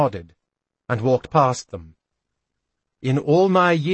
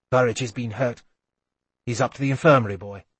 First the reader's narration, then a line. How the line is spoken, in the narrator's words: he said quickly